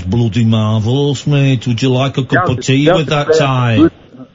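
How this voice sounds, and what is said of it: Put-on Birmingham Brummie accent. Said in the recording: “your Birmingham accent ... More Brummy accents”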